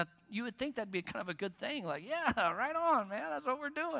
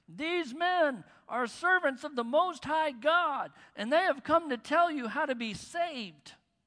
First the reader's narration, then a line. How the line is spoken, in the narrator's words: She followed Paul and the rest of us, shouting